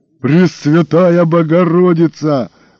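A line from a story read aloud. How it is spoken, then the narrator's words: Roaring. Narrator (Russian): взревел гость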